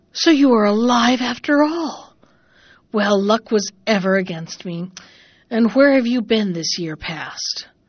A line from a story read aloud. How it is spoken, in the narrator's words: the stepmother gasped out